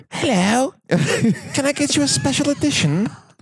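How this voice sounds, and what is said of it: Put-on British accent. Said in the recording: “I would have a British accent ... changes your accent”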